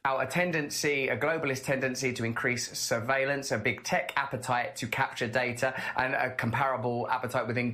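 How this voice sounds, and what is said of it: British accent. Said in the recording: “Russell Brand speaks with a British accent.”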